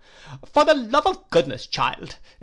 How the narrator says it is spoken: exclaimed my aunt

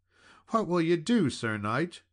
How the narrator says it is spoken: cried out the lady

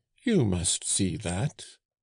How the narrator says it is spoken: cried the old man

